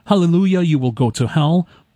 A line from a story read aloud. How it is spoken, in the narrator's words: The other pastor joined in shouting